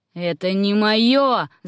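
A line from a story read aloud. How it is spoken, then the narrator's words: Yelling. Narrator (Russian): заорал Руэйд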